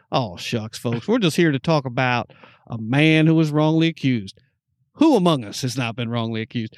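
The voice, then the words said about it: Put-on Southern American accent. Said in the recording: “that was a good accent... a Southern American accent”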